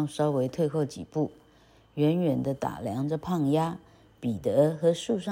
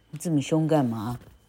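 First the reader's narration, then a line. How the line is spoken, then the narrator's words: Angry loud quacking. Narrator (Chinese): 大胖鸭也吓了一跳 立刻生气地 呱呱呱大叫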